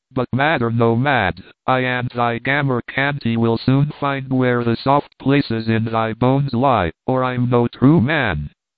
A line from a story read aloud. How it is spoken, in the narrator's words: said with a coarse laugh and an oath